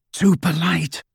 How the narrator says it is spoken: Harry whispered in Hermione's ear

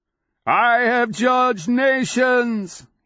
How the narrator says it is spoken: he bellows

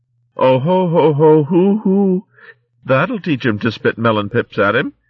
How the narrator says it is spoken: Viola and Winnigold were chuckling so hard that tears coursed down their cheeks as they confessed

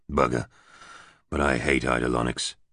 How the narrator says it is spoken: he muttered

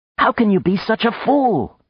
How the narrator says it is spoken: she cried

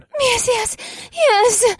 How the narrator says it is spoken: She gasped

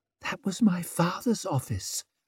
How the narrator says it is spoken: whispered Savine

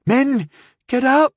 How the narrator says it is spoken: she said, her voice thick with excitement and dread

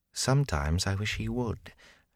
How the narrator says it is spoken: Gawain said softly for Rand's ear

